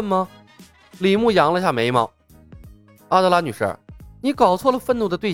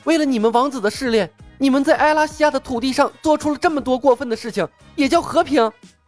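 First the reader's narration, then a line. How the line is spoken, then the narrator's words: Angry. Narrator (Chinese): 阿德拉愤怒地说道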